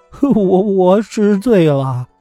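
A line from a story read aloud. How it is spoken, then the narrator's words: Terrified crying. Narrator (Chinese): 妙生异常恐惧，哭着说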